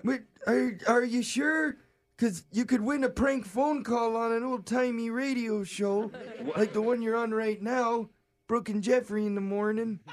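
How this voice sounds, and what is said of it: Put-on old man voice. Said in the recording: “that was my old man voice”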